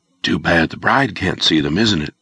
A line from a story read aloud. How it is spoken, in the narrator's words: Brad whispered